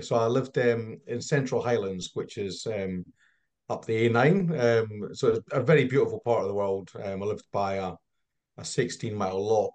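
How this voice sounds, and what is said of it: Scottish accent. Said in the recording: “So I'm Scottish. You might detect from my accent. It's not quite pure English.”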